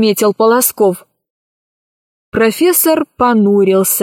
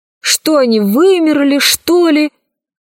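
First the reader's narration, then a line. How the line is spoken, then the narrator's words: Exasperated professor exclaiming. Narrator (Russian): в сердцах воскликнул профессор Селезнев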